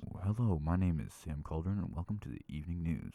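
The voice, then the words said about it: Smooth deep radio announcer voice. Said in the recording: “you sound like a radio announcer ... I think it is a little bit of morning voice ... I really like that voice ... Isn't it kind of sexy?”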